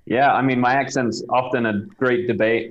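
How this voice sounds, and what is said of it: British accent, often mistaken for Australian. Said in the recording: “he has an amazing accent ... Most people think I'm Australian. I'm not. I'm British. ... originally from Southampton in the UK”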